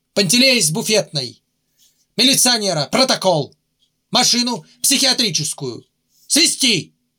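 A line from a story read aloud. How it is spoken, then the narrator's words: Crisp rapid command. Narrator (Russian): командир скомандовал точно, ясно, быстро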